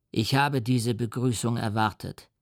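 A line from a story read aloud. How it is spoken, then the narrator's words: Plain. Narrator (German): sagte der Dämon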